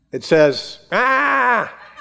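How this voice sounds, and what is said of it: Imitates a crying baby. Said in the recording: “That's my baby crying for milk impersonation.”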